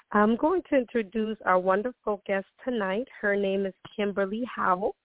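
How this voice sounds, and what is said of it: Voice altered, recovering from lost voice. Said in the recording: “my voice sounds a little different. I'm getting over a cold ... I did lose my voice”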